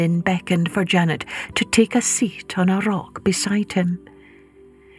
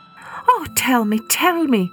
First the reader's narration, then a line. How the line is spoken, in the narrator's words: begged Janet